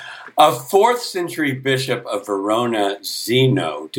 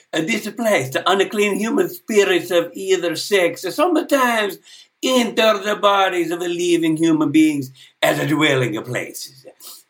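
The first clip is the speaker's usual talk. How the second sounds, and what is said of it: Put-on Italian accent. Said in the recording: “Please have it in an Italian accent.”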